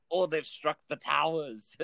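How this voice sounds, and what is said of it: Attempted Irish accent, sounds Austrian. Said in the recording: “this Irish man ... That's my accent. ... Sounded just like Arnold Schwarzenegger.”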